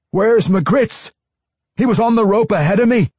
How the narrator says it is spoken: one cried, leaping up to his feet

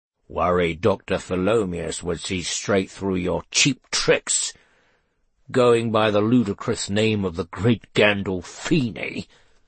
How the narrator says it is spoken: scoffed Kingfisher

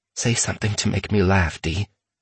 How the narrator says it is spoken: Aaron whispered

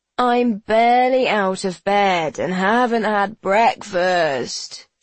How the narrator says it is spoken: whines

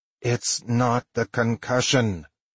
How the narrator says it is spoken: I groaned

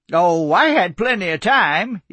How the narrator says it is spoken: he chuckled

